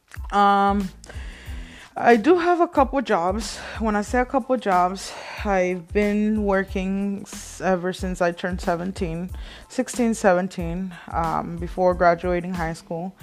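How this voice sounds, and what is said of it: Light Mexican Spanish accent. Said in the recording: “born and raised in Mexico, as you guys can probably tell from my accent. I don't have a very heavy accent anymore”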